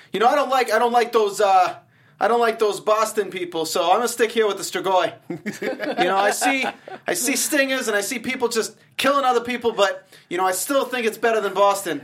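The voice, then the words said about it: Attempted New York accent, sounding Bostonian. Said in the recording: “I know that I don't know how to do a New York accent, so forgive me ... I think I'm doing a Boston accent really, actually ... It's like a Boston guy talking crap about Boston.”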